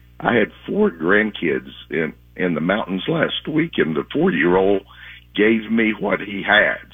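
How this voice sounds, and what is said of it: Hoarse voice. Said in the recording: “if I sound hoarse this morning, it's because I am ... my voice is not so good”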